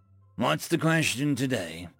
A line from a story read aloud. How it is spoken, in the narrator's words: he asked with a deep sigh